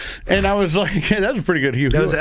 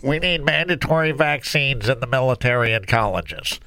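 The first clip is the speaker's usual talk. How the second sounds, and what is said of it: Nasal impression of Hugh Hewitt. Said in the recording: “That was a very good impression, actually, yeah. you had one hand pinching your nose.”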